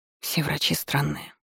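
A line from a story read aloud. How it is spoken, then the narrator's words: Muttering under breath. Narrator (Russian): пробормотала под нос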